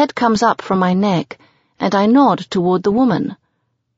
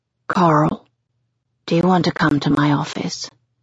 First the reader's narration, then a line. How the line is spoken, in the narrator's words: Jesse asks, way too softly and gently